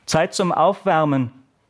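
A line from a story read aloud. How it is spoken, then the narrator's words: Teacher bellowing across hall. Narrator (German): brüllte der Sportlehrer durch die Halle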